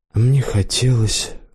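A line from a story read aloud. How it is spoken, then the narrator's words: Barely audible confession. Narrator (Russian): вдруг призналась еле слышно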